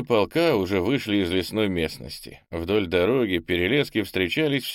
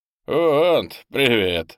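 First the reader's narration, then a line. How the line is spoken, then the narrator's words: Laughing. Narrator (Russian): хохотнул Бельс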